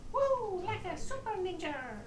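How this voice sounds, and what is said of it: Mario-style cartoon character voice. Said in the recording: “in your Mario voice”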